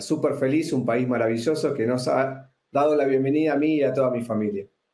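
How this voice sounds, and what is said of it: Argentine Spanish accent. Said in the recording (Spanish): “tienes acento argentino”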